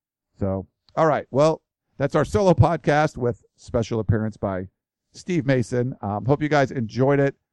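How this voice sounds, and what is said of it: Worn-out, strained voice. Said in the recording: “My voice is about shot.”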